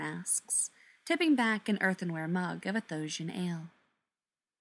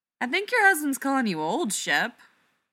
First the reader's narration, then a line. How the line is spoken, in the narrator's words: Laura laughs from the next log over